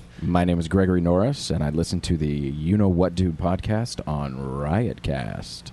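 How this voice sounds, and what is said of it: Great radio voice. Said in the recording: “listen to his voice though. got a beautiful. He's got a great radio. ... voice. ... Radio voice. ... Now, he's got a good voice.”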